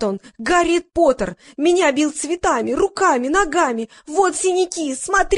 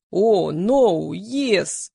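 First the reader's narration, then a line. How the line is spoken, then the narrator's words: Deep bass voice. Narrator (Russian): басом произнес Игорь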